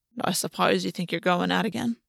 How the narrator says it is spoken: Ash murmured, something steely in his voice

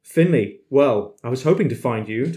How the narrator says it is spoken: Tyler laughed

